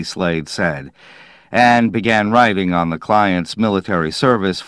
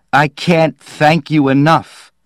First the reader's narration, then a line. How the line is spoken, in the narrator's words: Happily, said